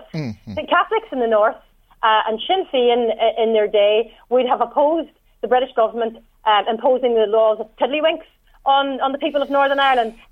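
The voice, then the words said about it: Northern Irish accent. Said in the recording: “you can tell from my accent that I'm from the north.”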